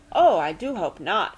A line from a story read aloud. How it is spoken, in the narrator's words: she exclaimed